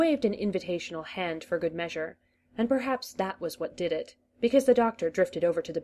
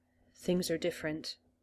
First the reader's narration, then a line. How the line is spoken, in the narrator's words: said, so quietly that the master had to lean in to hear